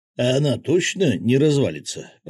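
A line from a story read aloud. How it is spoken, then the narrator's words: Mumbling. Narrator (Russian): пробормотал рыбак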